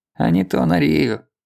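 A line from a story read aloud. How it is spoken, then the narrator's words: Grumbling. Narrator (Russian): проворчал Михеич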